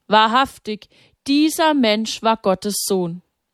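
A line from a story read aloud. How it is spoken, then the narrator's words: Cried out, collapsing. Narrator (German): Er sank zu Boden und rief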